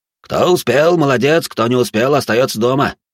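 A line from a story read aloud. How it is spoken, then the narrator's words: Driver shouting. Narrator (Russian): водитель крикнул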